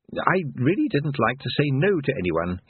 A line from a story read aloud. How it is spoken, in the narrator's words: he said